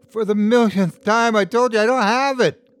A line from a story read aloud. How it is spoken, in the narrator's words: cried